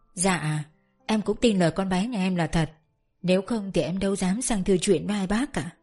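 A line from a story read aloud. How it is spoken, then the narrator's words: Soft, gentle. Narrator (Vietnamese): Bà Dần cũng khẽ khàng nói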